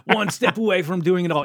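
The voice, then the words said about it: Bad put-on German accent. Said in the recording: “This is my awful, awful German accent.”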